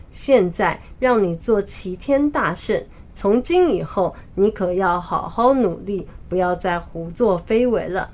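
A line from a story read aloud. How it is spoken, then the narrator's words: Forced smile, reluctant. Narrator (Chinese): 玉帝 虽然心里还是不太乐意，但是表面上仍笑着对孙悟空说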